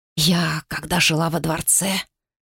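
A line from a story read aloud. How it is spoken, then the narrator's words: Whisper in ear. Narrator (Russian): шепнула ей на ухо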